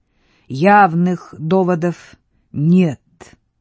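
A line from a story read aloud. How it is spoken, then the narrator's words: Through clenched teeth. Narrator (Russian): процедила пани Идалия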